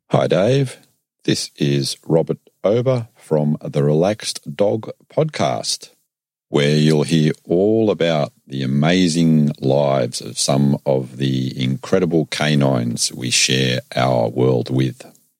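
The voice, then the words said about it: Distinctive, intelligent-sounding accent. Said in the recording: “a very cool accent. ... It's about to sound much more intelligent around here.”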